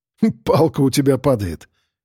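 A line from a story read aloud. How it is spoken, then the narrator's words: Short laugh. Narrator (Russian): хохотнул я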